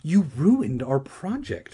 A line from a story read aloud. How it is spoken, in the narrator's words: Regina cried